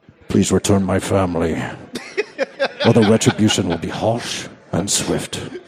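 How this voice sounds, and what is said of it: Liam Neeson impression, Irish accent. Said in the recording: “my Irish accent ... there's the Liam Neeson ... your Liam Neeson impression”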